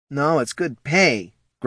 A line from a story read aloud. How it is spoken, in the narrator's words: grumbled Poldo